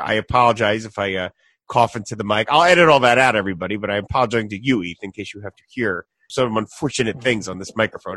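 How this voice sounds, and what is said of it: Congested voice from a cold. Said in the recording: “in case you notice my voice is off. I'm in the middle of a cold right now”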